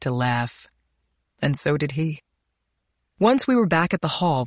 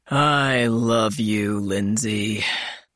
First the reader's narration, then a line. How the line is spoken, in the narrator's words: He sighed loudly and said